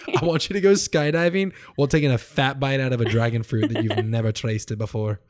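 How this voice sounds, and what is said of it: Weird put-on accent. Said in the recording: “What was that accent? ... That was weird.”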